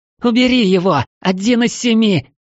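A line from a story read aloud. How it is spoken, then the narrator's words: Frightened shriek. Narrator (Russian): Взвизгнула Мара, боясь шелохнуться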